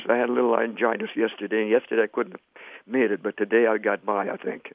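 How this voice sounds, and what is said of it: Hoarse, weak voice. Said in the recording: “Pardon my hoarseness. ... I'm glad you had enough voice for us today”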